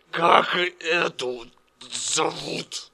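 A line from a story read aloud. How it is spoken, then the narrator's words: Shout. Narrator (Russian): Мормыш закричал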